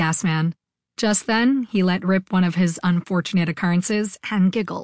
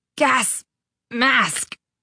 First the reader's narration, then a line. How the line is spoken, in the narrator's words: Iggy choked out